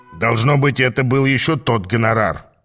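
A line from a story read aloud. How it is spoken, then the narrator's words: Grumbling. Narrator (Russian): проворчал Аас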